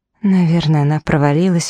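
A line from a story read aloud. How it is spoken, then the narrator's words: Sighing. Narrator (Russian): вздохнула я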